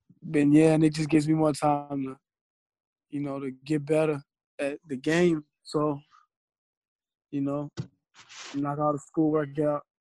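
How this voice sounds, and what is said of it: Hoarse, fading voice. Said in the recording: “I'm kind of losing my voice a little bit.”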